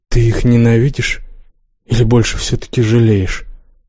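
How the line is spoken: Plain question. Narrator (Russian): спросила Яска

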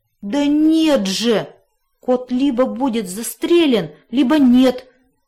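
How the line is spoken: Desperate groan. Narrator (Russian): простонал пес в отчаянии

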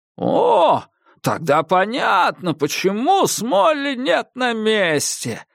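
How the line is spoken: Joyful old man's exclamation. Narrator (Russian): воскликнул старик с такой радостью, словно мы разгадали великую тайну

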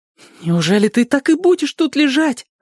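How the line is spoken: Exclaiming. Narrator (Russian): воскликнул Мэтчем

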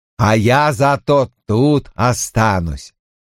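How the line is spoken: Joyful. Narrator (Russian): Самойн радостно говорил

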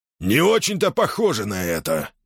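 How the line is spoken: Grumbled. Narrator (Russian): проворчал Арн Аббас

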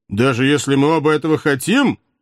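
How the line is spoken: Brave snort. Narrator (Russian): храбро фыркнул казак

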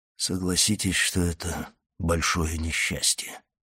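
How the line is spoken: Hollow muffled voice. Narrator (Russian): сказал он глухим голосом

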